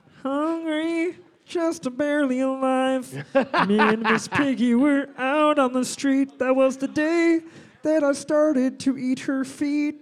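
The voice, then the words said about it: Kermit the Frog impression, singing. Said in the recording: “Kermit could do a pretty good impersonation ... I've never heard you do Kermit before ... That's pretty good”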